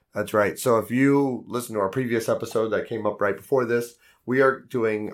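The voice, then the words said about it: Strained, unwell-sounding voice. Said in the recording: “my voice is not being happy with me right now”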